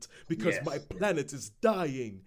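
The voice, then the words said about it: Mock Shakespearean theatrical accent. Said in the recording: “a mock Shakespeare accent ... That was a good impression.”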